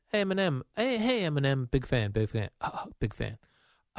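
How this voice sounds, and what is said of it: Stuttering imitation of another person. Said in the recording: “my stuttering John impression”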